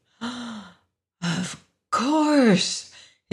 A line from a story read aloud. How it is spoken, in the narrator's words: breathed jubilantly